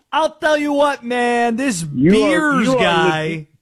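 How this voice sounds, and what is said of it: Jon Gruden impression. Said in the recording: “in your John Gruden voice ... Dude, you are spot on with”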